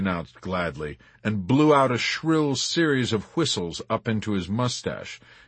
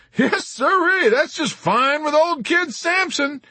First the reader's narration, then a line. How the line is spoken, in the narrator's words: shouted over the intercom